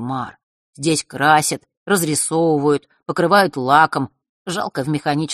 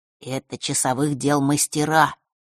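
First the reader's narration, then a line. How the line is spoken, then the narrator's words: Whispered introduction. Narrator (Russian): шепотом представил их Маар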